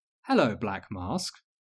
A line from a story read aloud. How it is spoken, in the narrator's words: Luna said, dreamily